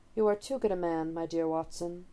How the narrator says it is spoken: Holmes murmurs

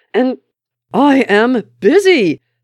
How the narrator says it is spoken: Steve shouted

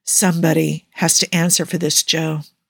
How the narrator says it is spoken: he murmurs

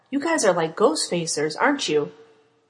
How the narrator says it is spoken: Sam choked

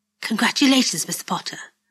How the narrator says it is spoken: she says softly

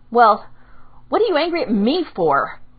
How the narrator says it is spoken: Arugha blurted out

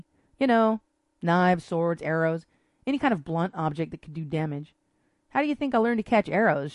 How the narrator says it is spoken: added, chuckling

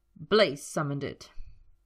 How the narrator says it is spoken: he spat

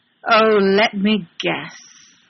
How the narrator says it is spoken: Sherlock drawls nastily, utterly disgusted

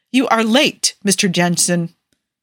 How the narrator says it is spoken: Principal Johnson snapped disapprovingly

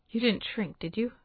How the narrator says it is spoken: he asks, and his voice is more tight than teasing

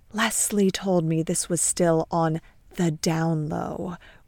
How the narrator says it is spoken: whispers Julie

